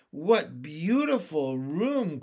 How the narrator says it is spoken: cried Violet

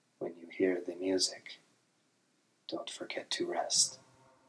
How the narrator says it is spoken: she leaned in and whispered

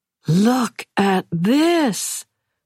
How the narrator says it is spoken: Pallas cried

